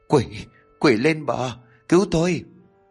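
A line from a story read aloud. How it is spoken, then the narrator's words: Breathless terrified stammer. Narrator (Vietnamese): Đạt mồm lắp bắp đến đứt cả hơi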